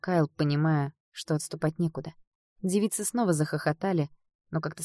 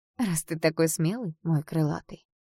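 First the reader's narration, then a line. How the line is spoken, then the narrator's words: Purring. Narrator (Russian): промурлыкала демонитка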